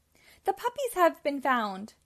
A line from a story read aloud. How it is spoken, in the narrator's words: cried Pongo